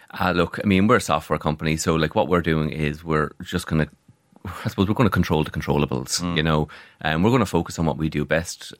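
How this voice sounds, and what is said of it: Irish Waterford accent. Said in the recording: “they originate from Waterford. If you can tell by the accent, there's a little bit of a ham blah.”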